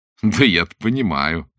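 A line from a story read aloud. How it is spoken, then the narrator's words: Laughing. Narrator (Russian): засмеялся Блад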